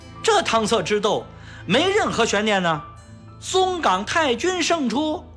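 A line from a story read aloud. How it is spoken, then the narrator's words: Exaggerated shout. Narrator (Chinese): 一位记者夸张地大喊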